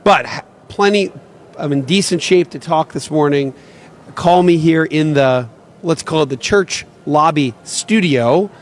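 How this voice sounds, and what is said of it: Slightly raspy voice. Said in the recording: “I'm literally screaming so that kids can hear me at the other end of the field. That's why I have a little bit of a raspy voice here on this Sunday morning.”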